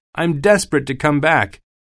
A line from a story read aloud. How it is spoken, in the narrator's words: he cried